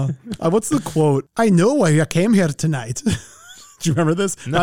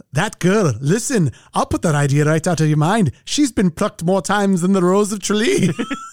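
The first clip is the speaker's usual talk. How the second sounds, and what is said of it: Poor put-on Scottish accent. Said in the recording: “my Scottish whatever accent's terrible”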